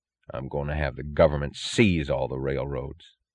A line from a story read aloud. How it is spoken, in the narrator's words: he said, his voice low